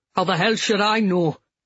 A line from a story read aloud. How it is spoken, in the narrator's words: Sean snapped